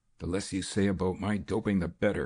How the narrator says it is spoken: snarled the other man

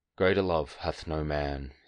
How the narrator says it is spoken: said wearily

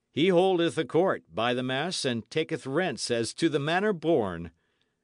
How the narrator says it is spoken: cried another of the company

